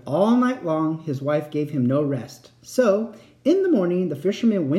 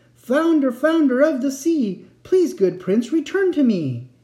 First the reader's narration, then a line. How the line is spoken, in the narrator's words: The fisherman called out